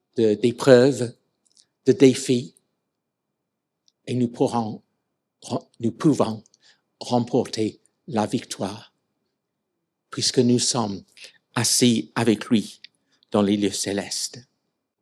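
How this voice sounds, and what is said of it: English accent speaking French. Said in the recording (French): “Je reste anglais, et il y a des traits évidents de mes origines. Donc, mon accent”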